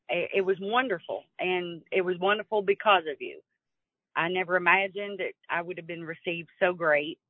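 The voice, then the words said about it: Kentucky accent. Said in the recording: “your Kentucky accent”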